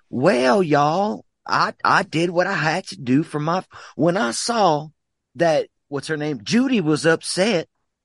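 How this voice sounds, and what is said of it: Sweet Southern accent. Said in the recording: “I think it's the accent a little bit... he could be that kind of Southern, but he's not. He's like a sweet Southern... the way you do it is so fucking endearing”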